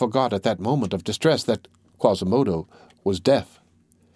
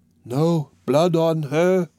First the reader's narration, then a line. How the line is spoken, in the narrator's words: said in a dull voice